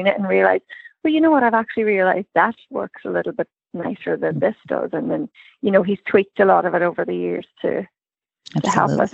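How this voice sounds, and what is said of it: Irish accent. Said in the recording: “that Irish accent”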